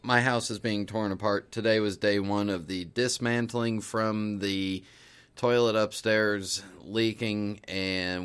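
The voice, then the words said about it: Tired, slightly frustrated voice. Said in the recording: “I sound a little tired,... a little frustrated”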